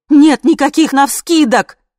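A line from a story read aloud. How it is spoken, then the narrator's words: Shouting. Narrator (Russian): закричала я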